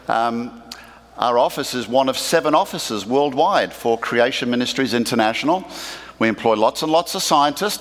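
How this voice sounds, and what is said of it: Australian accent. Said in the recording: “my deep southern accent... So, yes, I am from Australia.”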